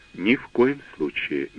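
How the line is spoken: Soft interruption. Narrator (Russian): мягко перебил

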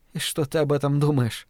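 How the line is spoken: Whisper. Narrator (Russian): прошептала Фрэнни

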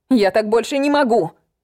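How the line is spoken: Shout. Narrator (Russian): крикнула я

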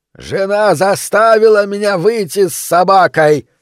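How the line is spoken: Shouted. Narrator (Russian): прокричал

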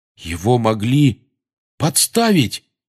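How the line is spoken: Exclaiming. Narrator (Russian): воскликнул Рон

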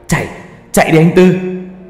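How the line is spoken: Desperate shout. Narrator (Vietnamese): ba tôi vùng hết sức bình sinh hét lên

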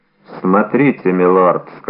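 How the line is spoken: Gloomy. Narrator (Russian): сказал он мрачно

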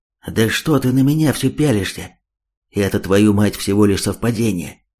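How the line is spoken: Angry, confused whisper. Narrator (Russian): Зло отчего-то шепотом ответил тот, хотя в глазах виднелась растерянность

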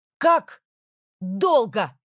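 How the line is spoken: Shouting. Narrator (Russian): крикнула я

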